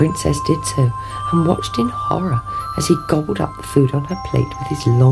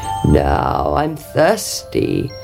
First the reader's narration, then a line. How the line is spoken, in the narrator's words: croaked the frog